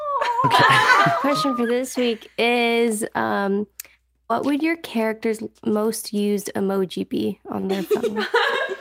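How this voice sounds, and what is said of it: Weird-sounding voice, getting over cold. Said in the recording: “my voice sounds weird. I don't know if it does, but I'm getting over a cold... Voice sounds really weird.”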